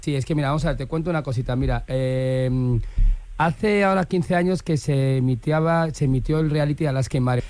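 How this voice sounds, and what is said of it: Put-on Valencian Spanish accent. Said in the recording (Spanish): “habla todo el rato con acento valenciano.”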